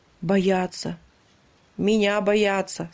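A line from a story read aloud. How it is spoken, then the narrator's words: Plain. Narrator (Russian): сказал танкист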